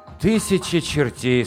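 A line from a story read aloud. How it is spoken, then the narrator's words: Very sad. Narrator (Russian): сказал Умка очень грустно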